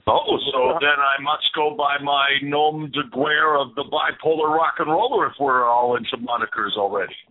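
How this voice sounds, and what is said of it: Canadian accent, somewhat British-sounding. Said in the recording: “He's a Canadian guy, too. So, for all of you folks north of the border listening tonight, you might recognize the accent. Kind of sounds more British, but you be the judge.”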